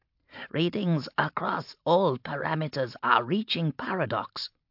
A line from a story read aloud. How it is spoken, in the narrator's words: rasped Geddon